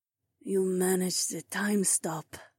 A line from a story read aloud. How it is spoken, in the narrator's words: Zoe breathed in awe